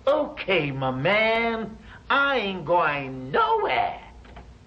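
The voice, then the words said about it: Attempted American accent. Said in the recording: “And another thing you have to work on. Your American accent.”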